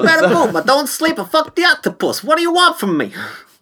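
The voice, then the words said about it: Put-on Brooklyn accent. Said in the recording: “Why did you go Brooklyn? ... why I do weird accents?”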